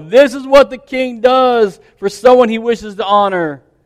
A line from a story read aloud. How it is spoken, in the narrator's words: shout as they go